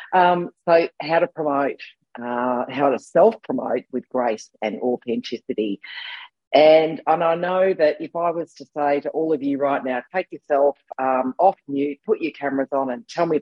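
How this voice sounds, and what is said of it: Husky voice from a cold. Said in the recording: “excuse my voice. I've got one of those lurgies, which means I do sound slightly less like the normal me and more like perhaps the drag queen version of me... my husky voice going on”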